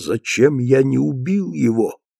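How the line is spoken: Muttering. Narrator (Russian): Бормоча

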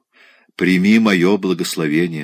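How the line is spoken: Plain. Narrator (Russian): сказала

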